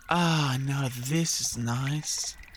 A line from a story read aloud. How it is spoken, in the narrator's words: sighed the Yowie as it lay down